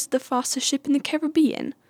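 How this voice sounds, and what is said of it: Bad accent imitating Elizabeth Swann. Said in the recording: “Elizabeth Swann ... That was the worst accent I've ever done.”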